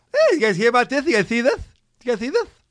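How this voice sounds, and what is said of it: Imitates another person's voice. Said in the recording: “you're going to be doing going back to Jay Leno a lot”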